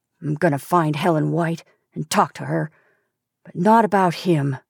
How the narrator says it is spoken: he muttered

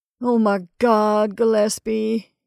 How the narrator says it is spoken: sobbed

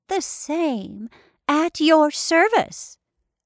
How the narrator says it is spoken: the old woman replied in a piping voice

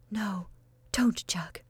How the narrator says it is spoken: whispered Constantia earnestly

